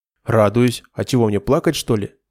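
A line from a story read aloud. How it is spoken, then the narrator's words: Laughing. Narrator (Russian): рассмеялась Санда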